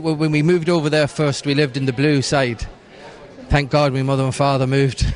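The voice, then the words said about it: Slight English Manchester accent. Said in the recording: “I detect a little bit of an English accent there ... I was born in Manchester ... the wee accent comes from”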